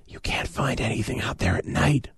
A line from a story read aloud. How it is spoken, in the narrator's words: I whispered